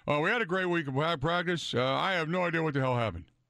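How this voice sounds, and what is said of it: Imitates another person's voice. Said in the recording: “That's my best Mike McCarthy impersonation”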